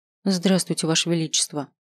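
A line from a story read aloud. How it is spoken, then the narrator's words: Dry. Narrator (Russian): сухо произнесла она, не оценив царево старания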